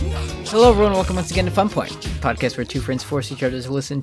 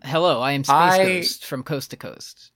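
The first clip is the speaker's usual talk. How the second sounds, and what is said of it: Space Ghost character voice. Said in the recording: “You're not going to bust out one of the many voices we could do on this episode?”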